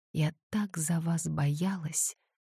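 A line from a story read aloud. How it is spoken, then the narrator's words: Barely audible confession. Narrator (Russian): призналась она еле слышно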